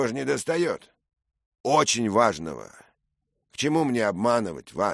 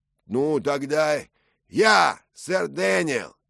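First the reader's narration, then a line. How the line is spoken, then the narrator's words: Shout. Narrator (Russian): крикнул другой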